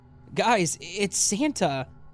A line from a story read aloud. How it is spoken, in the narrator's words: shouting